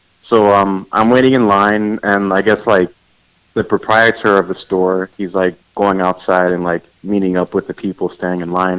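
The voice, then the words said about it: New York accent. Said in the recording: “I guess from my accent, he's like, oh, so you're from New York, aren't you?”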